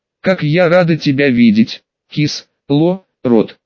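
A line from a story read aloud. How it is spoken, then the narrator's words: Hoarse rasp. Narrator (Russian): прохрипела Тифлингесса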